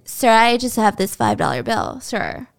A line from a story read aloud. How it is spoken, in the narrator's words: BJ's slurring